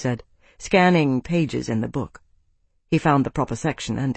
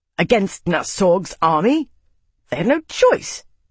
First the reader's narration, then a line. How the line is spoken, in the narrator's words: Max spat